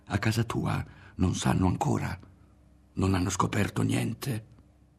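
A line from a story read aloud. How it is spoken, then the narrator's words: Whisper. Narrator (Italian): gli sussurrò Ario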